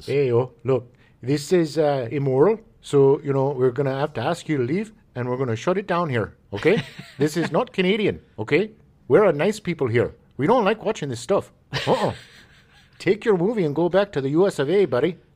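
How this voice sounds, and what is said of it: Exaggerated Canadian accent. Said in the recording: “Such a dead-on Canada impersonation.”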